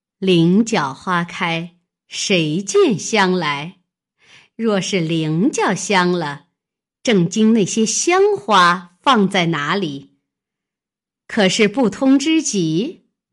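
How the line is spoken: Scornful sneer. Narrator (Chinese): 金贵鼻孔里嗤嗤两声，冷笑道

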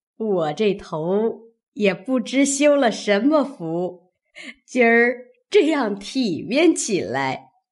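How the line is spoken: Old woman laughing. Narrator (Chinese): 刘姥姥笑道

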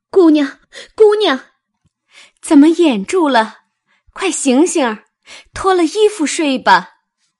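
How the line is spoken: Calling out. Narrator (Chinese): 紫鹃叫道

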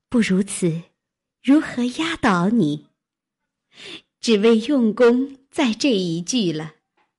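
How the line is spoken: Laughing. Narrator (Chinese): 黛玉笑道

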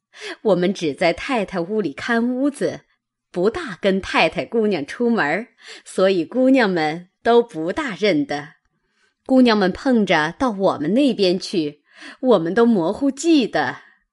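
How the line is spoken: Laughing. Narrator (Chinese): 婆子笑道

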